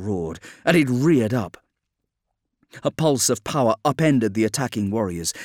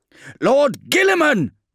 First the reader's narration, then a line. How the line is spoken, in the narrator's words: yelled Maxim